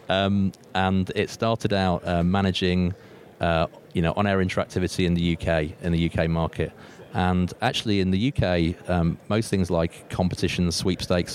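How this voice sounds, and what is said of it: British English accent. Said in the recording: “The company's actually a British company, as you can tell from my strange accent.”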